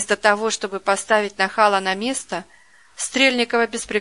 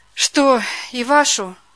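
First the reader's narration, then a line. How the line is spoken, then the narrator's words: Sighing. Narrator (Russian): вздохнула она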